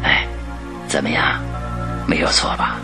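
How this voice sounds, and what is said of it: Speaking quietly, hushed voice. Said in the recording (Chinese): “福尔摩斯小声地对华生说着”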